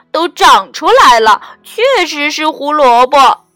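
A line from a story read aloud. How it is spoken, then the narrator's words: Exclaiming. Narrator (Chinese): 小白菜叫道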